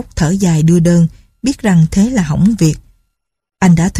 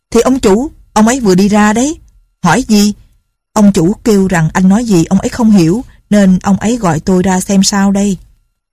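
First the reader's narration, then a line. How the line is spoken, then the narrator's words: Tongue-clicking man barking. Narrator (Vietnamese): Ông kia tặc lưỡi lừ mắt quát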